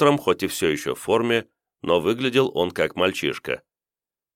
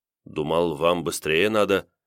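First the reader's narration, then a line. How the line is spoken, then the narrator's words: Confused reply. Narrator (Russian): растерянно ответил Старлей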